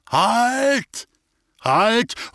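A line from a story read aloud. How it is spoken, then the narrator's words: Calling out. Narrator (German): ruft er oben den Leuten zu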